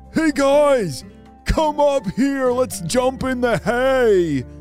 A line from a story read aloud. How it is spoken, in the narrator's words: he called out